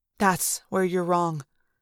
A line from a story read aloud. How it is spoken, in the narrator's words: Eric said softly